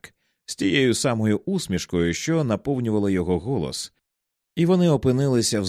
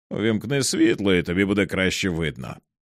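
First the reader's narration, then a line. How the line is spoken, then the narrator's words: Smiling, casual friendly tone. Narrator (Ukrainian): порадив Старк все тим же усміхненим голосом людини, що просто проводить час з найкращим приятелем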